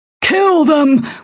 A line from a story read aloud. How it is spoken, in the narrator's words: shouted